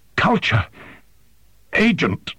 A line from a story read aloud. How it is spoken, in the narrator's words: It swallowed with obvious pain and croaked